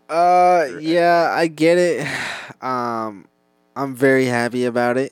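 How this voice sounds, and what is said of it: Sarcastic, unenthusiastic tone. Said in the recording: “as you can tell from my voice”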